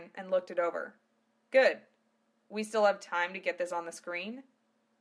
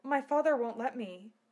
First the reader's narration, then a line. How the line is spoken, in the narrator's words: she said gently